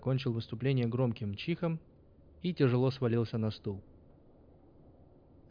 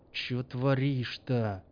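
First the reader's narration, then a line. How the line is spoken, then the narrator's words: Angry hiss. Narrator (Russian): прошипел он разозленно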